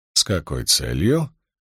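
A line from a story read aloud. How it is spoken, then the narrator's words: Insinuating question. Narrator (Russian): вкрадчиво поинтересовался Поттинг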